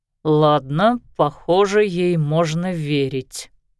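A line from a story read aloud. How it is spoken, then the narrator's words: Grumbling. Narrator (Russian): пробурчал он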